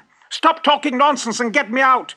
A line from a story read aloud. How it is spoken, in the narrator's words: shouted the fox